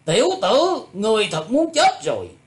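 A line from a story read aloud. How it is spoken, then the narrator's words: Shouting. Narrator (Vietnamese): Thạch Đại Xuyên quát lên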